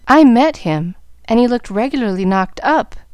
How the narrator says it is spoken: answered Gus, in a sober tone

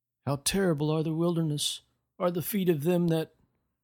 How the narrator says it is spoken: he would moan

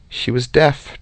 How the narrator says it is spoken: Trover said very quietly

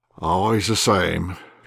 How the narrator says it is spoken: replied Savelich, sighing

